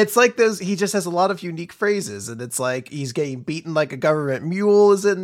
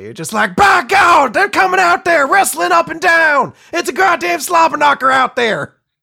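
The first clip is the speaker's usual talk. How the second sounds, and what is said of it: Jim Ross cowboy-accent impression. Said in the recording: “You could do Jim Ross, which is just like a cowboy accent, essentially.”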